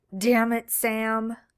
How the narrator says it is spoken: Dean growled

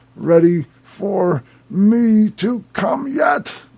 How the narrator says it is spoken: I grunted out the words with each thrust

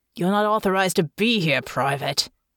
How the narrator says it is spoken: one of the policemen growled

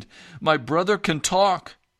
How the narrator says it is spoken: Excitedly, she explained

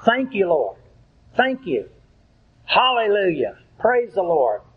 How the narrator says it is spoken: spontaneously blurting out

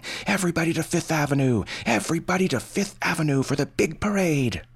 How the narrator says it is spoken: mobs now heading east and yelling

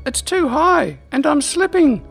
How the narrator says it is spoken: Slifania exclaimed as her grip on Glendril's right forearm slipped down

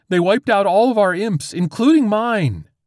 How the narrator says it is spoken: whined the programmer

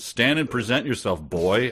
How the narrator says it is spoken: I demanded in a slightly angered voice

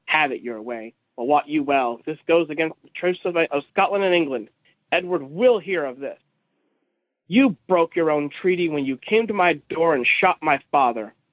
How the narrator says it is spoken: Frowning deeply, the leader grunts

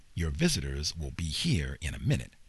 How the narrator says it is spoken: the guard said

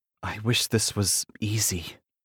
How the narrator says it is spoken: she whispers

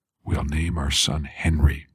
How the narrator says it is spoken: I whispered

